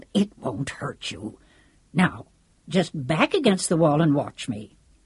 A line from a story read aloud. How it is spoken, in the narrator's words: Lancelot growled